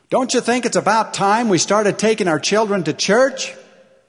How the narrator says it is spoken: his wife shouted up to him

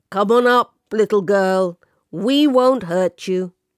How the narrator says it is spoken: a huge face filled the hole at the top of the ladder, and a booming voice called out

